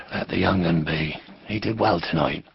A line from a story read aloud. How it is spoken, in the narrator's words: Abrook murmured to her